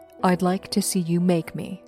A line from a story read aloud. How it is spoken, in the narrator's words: replied